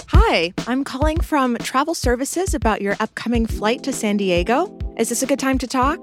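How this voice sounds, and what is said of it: Polished customer service phone voice. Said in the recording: “my best customer service voice ... pretty convincing”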